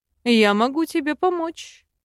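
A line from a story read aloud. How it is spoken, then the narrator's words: Snorting prince. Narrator (Russian): хмыкнул принц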